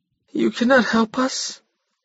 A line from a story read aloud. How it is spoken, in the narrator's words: he said weakly